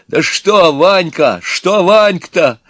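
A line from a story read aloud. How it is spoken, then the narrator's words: Exclaiming. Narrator (Russian): воскликнул Иван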